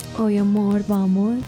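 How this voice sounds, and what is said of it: Put-on paisa Colombian accent. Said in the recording (Spanish): “usted me responde en acento paisajo”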